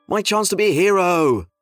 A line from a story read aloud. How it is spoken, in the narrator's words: said Justin